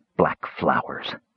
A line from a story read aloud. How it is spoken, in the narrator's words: muttered the mage